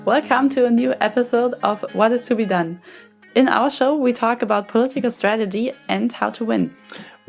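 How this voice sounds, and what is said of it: German accent. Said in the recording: “as you can tell from our accents, we're both activists from Germany”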